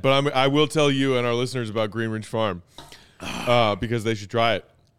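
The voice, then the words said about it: Voice going hoarse. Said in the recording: “You guys can tell my voice is starting to go.”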